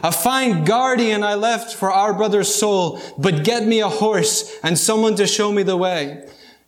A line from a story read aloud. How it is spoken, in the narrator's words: The apostle groaned